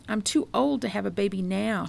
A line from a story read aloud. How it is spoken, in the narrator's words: cried